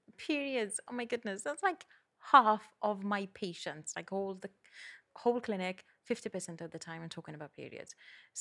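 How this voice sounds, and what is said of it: Welsh accent. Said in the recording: “I absolutely love your accent, which is from a, a part of ... Wales.”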